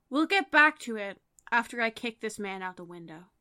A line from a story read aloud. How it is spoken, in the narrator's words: Instance sighs heavily and says